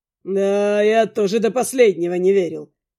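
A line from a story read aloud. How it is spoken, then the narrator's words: Wry snort. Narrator (Russian): хмыкнул Нил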